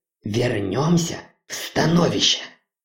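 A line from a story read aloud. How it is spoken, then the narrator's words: Strained, heavy, furious. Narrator (Russian): Хона с напряжением выдавила из себя тяжелые яростные слова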